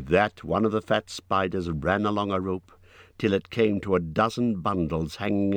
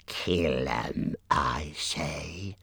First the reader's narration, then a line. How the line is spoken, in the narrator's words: hissed a fourth